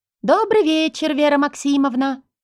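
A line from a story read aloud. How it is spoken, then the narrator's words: Sugary singsong. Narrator (Russian): пропела она специальным сладким голосом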